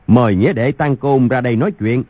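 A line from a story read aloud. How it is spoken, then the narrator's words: Loud calling out. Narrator (Vietnamese): Thiếu Một Chân ... cao giọng gọi lớn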